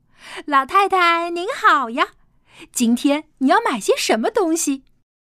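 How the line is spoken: Cheerful greeting. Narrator (Chinese): 老板娘满脸笑嘻嘻的跟他们打招呼

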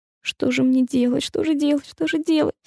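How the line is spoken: Moaning to himself. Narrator (Russian): стонал он про себя

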